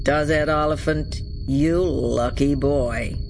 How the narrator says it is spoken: drawled the rich bass American voice

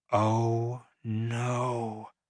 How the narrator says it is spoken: said under my breath

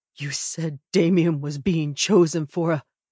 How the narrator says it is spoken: Ash chuckles, cutting him off

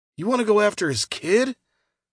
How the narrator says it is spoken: Scout asked, his tone incredulous

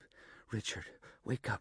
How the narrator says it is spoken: she gasped

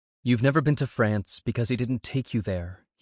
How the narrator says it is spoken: he interrupted, his tone steady and factual

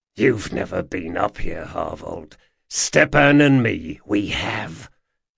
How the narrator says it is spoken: he hissed

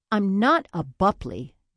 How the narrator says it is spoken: Nathan snapped with a glare

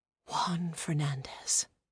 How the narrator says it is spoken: whispered the soft voice

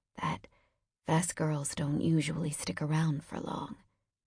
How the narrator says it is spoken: whispered

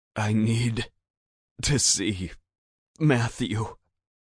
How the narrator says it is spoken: choked out, hoping to convince him

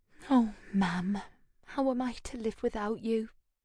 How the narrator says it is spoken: Rhiannon whispered

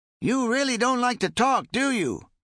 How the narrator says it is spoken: Ben's passenger yelled

